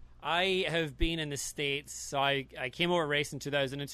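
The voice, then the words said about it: Scottish accent. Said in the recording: “you're Scottish, so... you have a really, you know, fine accent”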